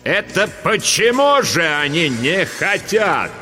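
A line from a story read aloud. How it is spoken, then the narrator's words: Booming voice. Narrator (Russian): прогремел на весь класс голос Дурцевой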